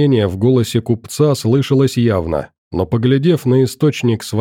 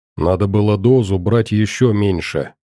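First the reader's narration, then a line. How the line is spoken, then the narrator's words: Quiet. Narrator (Russian): тихонько сказал Макс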